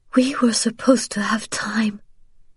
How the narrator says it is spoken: she whispered, feeling tears start

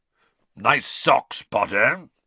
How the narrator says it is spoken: Moody growled

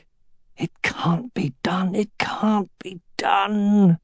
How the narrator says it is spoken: he whispered

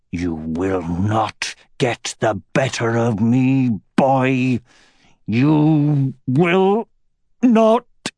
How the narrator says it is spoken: he growled

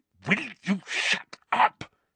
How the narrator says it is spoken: Harry hissed

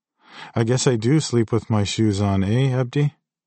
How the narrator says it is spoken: I said and laughed

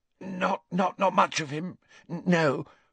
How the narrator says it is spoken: gasped Belby, his eyes streaming

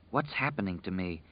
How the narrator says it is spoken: she whispered to the dark

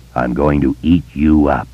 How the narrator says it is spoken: the giant had said in a low, rumbling voice

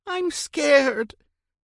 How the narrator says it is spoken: Jeff whined

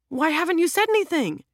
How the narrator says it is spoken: blurts out

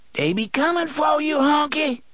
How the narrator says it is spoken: Dedda screeched

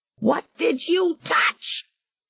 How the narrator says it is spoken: she screamed shrilly at him

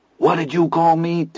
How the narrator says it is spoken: Teddy asked hoarsely

